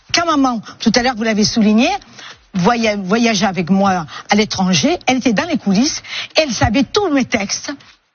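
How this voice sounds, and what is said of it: Woman with a mild regional accent. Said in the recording (French): “Une dame qui a l'accent. ... Mado, elle a un accent quand même qui est beaucoup plus prononcé.”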